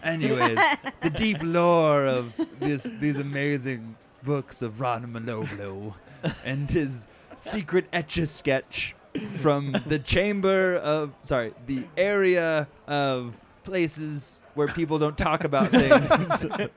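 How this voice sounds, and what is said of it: Old British man accent, slipping. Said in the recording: “your accent went from old British man to just like, fuck it, just get out of here... I constantly fall in and out of this accent.”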